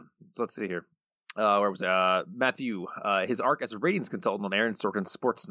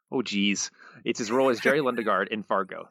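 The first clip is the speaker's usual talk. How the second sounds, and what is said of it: Put-on Minnesotan Upper Midwest accent. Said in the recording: “Got to get that Minnesota, South Dakota, wherever it is, accent. ... Northern Midwest, Southern Canada.”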